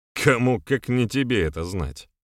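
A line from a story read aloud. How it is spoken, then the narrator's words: Snorted. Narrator (Russian): фыркнул Милован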